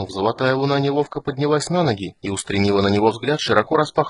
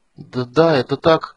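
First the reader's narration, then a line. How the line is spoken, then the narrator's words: Stammering. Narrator (Russian): запинаясь, проговорила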